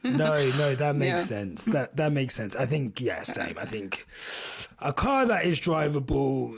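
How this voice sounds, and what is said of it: Strained, worn-out voice. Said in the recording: “My voice is on the way out. ... I said I wouldn't shout, and I started shouting”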